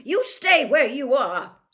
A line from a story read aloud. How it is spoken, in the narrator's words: snarled Mrs